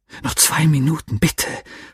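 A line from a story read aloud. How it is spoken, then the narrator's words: Irritated whisper. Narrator (German): flüsterte ich ungehalten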